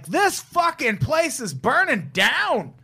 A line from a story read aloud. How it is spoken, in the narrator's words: One guy suddenly screams extremely loud